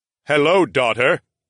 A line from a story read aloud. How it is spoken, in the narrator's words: the huge king boomed in his resounding voice